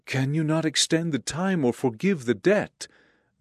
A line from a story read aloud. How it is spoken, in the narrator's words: the debtor begged